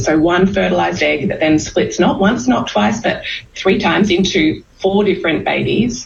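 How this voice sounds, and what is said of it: Australian woman's accent. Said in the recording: “somebody who has a really cool accent. That's an Australian woman.”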